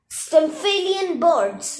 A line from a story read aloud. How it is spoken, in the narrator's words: Annabeth yelled